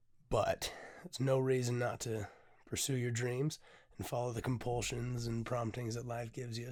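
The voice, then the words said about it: Hoarse voice. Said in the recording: “I'm still very hoarse. My voice is coming back, but it's gone.”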